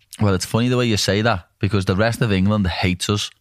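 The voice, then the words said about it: Liverpool Scouse accent. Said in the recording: “I could listen to you Liverpudlians talk all day long ... your accent ... hate our accent ... Scouse”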